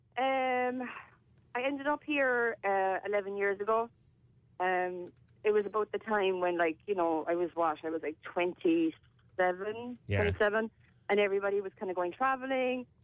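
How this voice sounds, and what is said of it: Non-American accent, slightly Americanized. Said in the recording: “you've still got the accent. I'm impressed. ... I still have the accent, I do. Even though sometimes my family would tell me I sound like a bit of a Yank”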